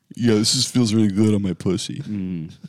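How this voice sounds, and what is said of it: Imitates another person's voice. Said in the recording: “Is that how he talks? Is that your impression of Adam? ... That's what he sounds like.”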